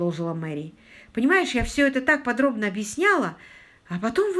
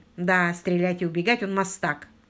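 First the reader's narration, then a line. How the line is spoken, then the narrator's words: Gloomy agreement. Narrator (Russian): мрачно согласился Питер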